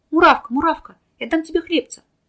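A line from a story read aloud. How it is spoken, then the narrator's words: Shouted. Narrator (Russian): крикнула ей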